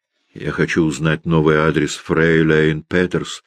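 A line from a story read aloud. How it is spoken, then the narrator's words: Plain. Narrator (Russian): сказал Кречмар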